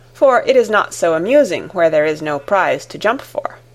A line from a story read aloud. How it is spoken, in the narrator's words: exclaimed the king